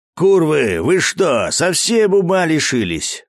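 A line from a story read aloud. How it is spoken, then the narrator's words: Angry yelling. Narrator (Russian): орал главарь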